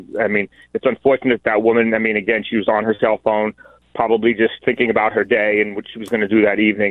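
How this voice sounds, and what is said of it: New York City accent. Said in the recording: “as you may hear from my accent, I grew up in New York City.”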